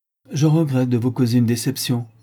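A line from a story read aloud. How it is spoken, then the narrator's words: Curt, dry. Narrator (French): dit sèchement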